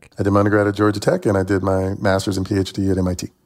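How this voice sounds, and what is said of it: Chattanooga, Tennessee accent. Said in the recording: “as you can tell by my accent, I'm from Chattanooga, Tennessee”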